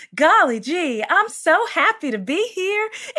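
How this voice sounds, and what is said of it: Sweet put-on country accent. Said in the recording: “the princess voice ... My princess had like a country accent”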